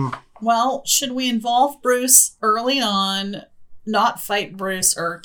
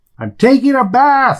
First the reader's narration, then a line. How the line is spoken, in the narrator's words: yell back